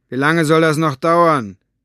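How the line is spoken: Called out. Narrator (German): rief schließlich

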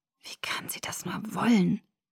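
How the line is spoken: Whisper. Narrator (German): flüsterte ich

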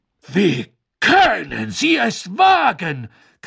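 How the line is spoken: Shrieking. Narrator (German): kreischte Madame Maxime

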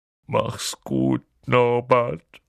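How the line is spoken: Sobbing. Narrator (German): schluchzte Hagrid

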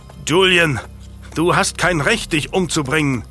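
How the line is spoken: Roaring after someone. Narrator (German): brüllte Lucas ihm nach

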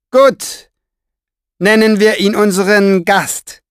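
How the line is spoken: Calling down. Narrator (German): rief der Pfeifer hinunter

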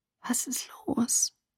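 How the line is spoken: Whispering. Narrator (German): Ich flüsterte

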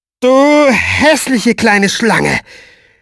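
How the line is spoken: Loud strange nasal voice. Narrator (German): Die nasenlose Stimme des Pfeifers klang noch seltsamer, wenn er laut wurde

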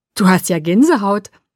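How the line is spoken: Delighted, laughing. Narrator (German): sagte er entzückt und lachte

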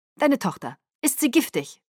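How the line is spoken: Curt question. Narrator (German): fragte er schroff

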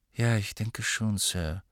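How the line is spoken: Flat toneless voice. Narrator (German): sagte schließlich mit tonloser Stimme

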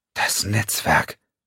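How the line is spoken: Whisper. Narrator (German): flüsterte Xiong

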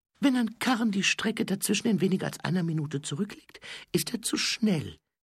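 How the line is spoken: Quiet explaining voice. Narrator (German): erklärte die leise Stimme

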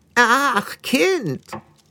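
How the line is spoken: Thin, croaking old witch. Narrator (German): sagte die alte Hexe mit einer dünnen, krächzenden Stimme

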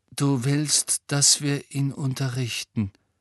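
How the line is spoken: Hollow voice. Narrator (German): sagte Harry mit hohler Stimme

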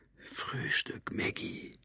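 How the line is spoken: Whispered. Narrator (German): hatte geflüstert

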